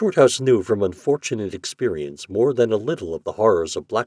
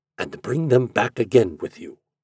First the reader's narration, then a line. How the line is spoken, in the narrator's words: he whispered